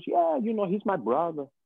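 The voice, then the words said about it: Put-on accent. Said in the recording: “When you hit the accent like that”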